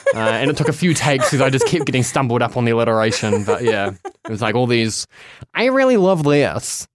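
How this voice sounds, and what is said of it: Nasal, high-pitched non-American accent. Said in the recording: “juxtapositioned against all the American accents ... my nasally high-pitched accent”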